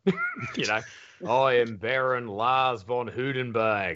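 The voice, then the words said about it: Steampunk aristocrat voice, Australian accent. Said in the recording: “steampunk with an Australian accent's a lot of fun though”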